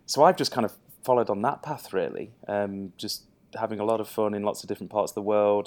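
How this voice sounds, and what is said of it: Speaks with a noticeable accent. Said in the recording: “my doppelganger has a really great accent”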